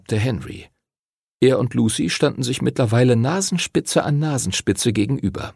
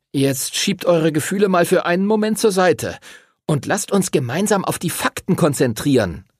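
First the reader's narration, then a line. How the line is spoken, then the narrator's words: Snapped harshly. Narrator (German): schnauzte er sie an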